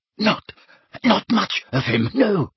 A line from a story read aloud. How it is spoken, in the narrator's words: gasped Belby, his eyes streaming